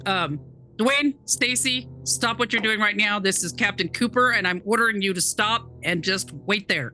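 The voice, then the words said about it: Commanding Navy officer voice. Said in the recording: “put on my Navy voice”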